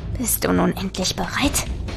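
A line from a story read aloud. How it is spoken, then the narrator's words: Corpse hissing. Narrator (German): zischte der Leichnam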